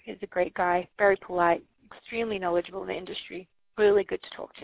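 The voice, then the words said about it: Australian accent. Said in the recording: “I noticed you have an accent. ... I'm from Australia ... I could hear it ... I have a different Australian accent. Everyone's like, are you British or Australian?”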